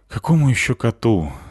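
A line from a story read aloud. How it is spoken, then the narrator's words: Sighing. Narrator (Russian): вздохнул я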